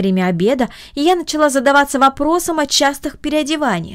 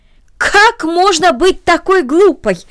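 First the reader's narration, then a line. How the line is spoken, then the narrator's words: Exclaimed. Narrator (Russian): воскликнула тетя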